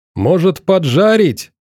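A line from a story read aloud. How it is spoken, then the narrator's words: Shouting after spectators. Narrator (Russian): он уже кричал в спины зрителям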